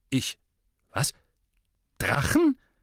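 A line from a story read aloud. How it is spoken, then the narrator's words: Stammering. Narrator (German): stotterte der Premierminister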